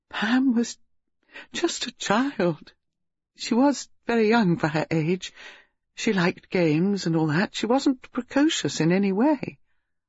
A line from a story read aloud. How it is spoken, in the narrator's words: Reeves said tearfully